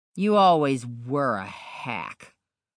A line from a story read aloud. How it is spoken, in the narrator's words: Onslow said with a sneer